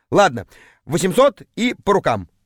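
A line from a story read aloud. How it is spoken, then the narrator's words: Plain. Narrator (Russian): ответил я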